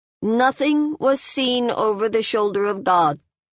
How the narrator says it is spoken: In the silence, the oldest dream priest said in her thin, clear voice

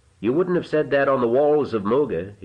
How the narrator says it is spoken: he said, still more harshly, for it galled his heart to see her like this

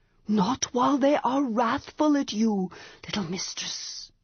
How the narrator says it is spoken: Manon whispered

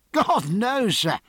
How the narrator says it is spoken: said Mowat, laughing very cheerfully

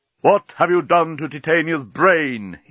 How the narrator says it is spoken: he roared

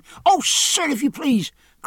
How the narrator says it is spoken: cried Poll

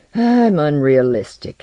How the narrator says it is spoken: he said aloud with another sigh and another shiver

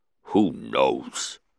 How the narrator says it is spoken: The Hutt grunted

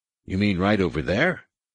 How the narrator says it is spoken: Han asked

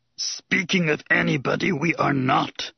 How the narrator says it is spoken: Yoda had said sternly

